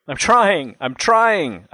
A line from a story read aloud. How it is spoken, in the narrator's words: I cried in desperation